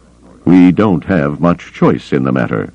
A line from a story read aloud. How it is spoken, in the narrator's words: Thrawn reminded him dryly